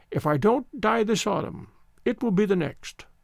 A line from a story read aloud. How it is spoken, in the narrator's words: the old voice quavered